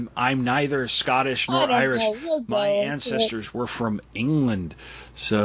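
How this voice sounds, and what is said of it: Usual voice. Nothing is said of it.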